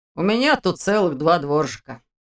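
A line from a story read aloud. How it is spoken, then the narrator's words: Smirking grunt. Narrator (Russian): хмыкнул Ваня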